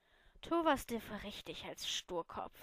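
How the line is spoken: Sighing. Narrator (German): seufzte sie

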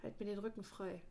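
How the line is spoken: Murmur. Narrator (German): murmelte

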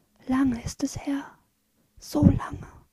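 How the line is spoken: Tearful, smiling whisper. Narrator (German): flüstert sie, und eine Träne tropft trotz ihres Lächelns

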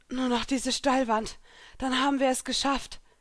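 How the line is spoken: Panting. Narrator (German): keuchte Elsa

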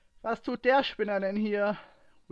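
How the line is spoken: Louder than intended call. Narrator (German): rief Ray lauter, als es geplant war

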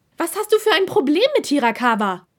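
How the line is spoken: Almost shouting. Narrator (German): schrie er nun fast

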